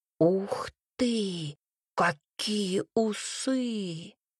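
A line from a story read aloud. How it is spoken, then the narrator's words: Awed whisper. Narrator (Russian): Юрка прошептал зачарованно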